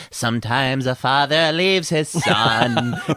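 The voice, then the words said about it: Poor imitation of a singer's voice. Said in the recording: “This is a terrible impression, by the way, of Cat Stevens”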